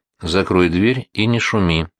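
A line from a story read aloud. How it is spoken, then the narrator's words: Calm command. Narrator (Russian): спокойно приказал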